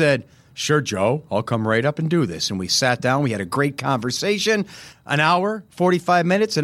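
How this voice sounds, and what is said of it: Usual voice. Nothing is said of it.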